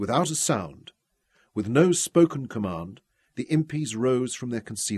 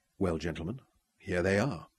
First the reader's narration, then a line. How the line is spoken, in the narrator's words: said quietly